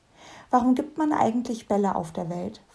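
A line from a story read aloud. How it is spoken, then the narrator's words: Musing with a sigh. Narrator (German): philosophiert Fernberg mit einem Seufzer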